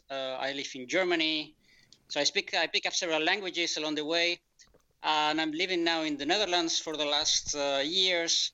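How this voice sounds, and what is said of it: European (Spanish) accent. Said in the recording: “I'm European. You can see that from my accent.”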